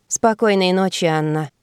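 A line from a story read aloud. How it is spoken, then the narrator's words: Sleepy voice. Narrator (Russian): отозвался сонным голосом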